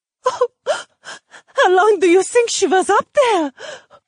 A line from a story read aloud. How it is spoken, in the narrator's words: Afton sobbed